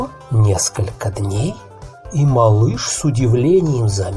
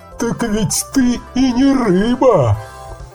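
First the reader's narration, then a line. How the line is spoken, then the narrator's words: Old creature laughing. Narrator (Russian): засмеялся старый мудрый рак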